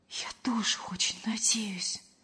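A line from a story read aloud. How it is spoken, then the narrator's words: Whispered reply. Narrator (Russian): почему-то шепотом откликнулась Лена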